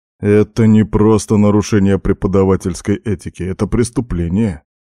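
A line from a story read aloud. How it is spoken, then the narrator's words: Sympathetic snort. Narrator (Russian): сочувственно хмыкнул Арнус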